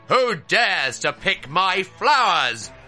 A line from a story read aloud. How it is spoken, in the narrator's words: bellowed a ferocious voice